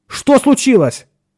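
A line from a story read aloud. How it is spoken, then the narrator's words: Nearly shouted. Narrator (Russian): почти крикнул Ширин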